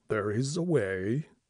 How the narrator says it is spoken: he mumbled, peering at me out of his rheumy old eyes

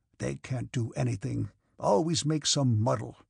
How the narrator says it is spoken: he muttered

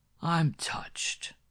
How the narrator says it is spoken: rasped Rocky Castell in a voice that quivered with fury

